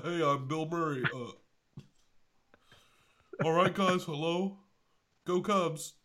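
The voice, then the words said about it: Imitates another person's voice. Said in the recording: “my Bill Murray impression.”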